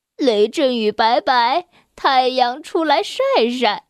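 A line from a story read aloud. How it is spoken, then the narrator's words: Laughing. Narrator (Chinese): 奥利笑着说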